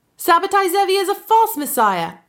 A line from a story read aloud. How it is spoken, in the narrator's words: a high, boyish voice cried out